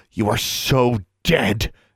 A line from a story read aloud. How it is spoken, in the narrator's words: Alexandra hissed